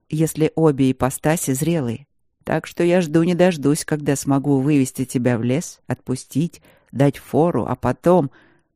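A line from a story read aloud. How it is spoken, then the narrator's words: Calm answer. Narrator (Russian): ответил он спокойно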